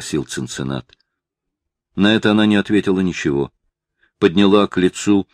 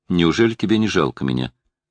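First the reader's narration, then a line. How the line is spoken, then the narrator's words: Plain. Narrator (Russian): сказал Цинцинат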